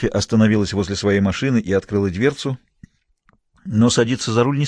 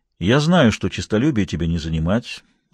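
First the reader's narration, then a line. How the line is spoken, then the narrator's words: Calm reply. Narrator (Russian): ответил он спокойно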